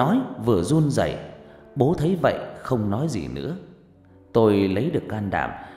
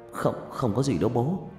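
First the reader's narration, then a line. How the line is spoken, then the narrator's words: Stammering. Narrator (Vietnamese): lắp bắp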